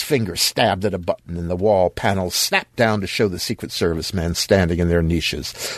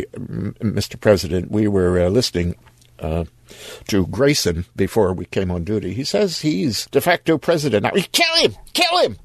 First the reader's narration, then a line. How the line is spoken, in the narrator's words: The chief of the detail said uneasily